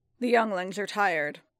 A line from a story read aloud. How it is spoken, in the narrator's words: the Wiffed growled, his voice low and deep